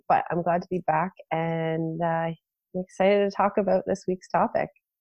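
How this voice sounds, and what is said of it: Nasal, stuffed-up voice. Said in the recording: “I'm still a little nasally, so I'm sorry I'm a little stuffed up still. ... My voice is sounding funny”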